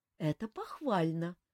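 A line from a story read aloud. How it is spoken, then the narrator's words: Sighing. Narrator (Russian): вздохнула Эльвира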